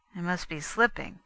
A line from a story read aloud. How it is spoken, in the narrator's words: he muttered